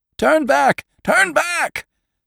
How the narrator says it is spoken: screamed the Moravian drovers

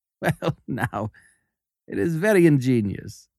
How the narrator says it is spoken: said I, laughing

